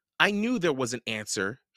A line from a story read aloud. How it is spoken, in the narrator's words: said